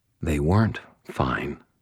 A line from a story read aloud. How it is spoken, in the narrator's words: I said quietly